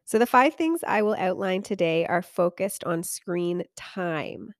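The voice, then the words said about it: Lower voice, recovering from cold. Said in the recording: “my voice is a little bit lower than usual. I am just at the tail end of a cold.”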